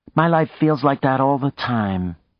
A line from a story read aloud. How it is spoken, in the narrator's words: Maya said sadly